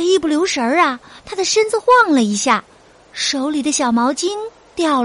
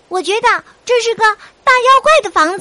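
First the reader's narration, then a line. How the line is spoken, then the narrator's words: Loud booming shout. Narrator (Chinese): 他用那副探险家的大嗓门叫着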